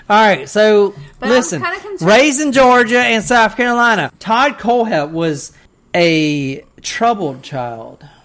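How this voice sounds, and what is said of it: Southern US accent. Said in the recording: “Do you remember when you told me you don't have an accent? ... Hear his accent every day.”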